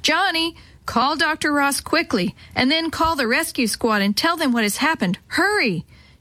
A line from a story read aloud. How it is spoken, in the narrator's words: Mother shouted